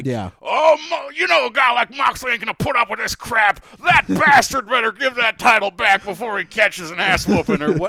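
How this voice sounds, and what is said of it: Impression of wrestling commentator JR. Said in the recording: “my JR impression ... He'll say, like, ... that impression”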